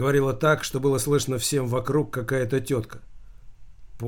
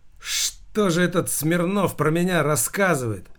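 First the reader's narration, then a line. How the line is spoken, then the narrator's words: Loud nervous exclamation. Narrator (Russian): Воскликнул громко Замелькацкий, пытаясь сбить охватывающую его нервозность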